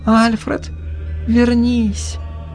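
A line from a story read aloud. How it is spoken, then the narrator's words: Frightened whisper. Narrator (Russian): испуганно прошептала Марта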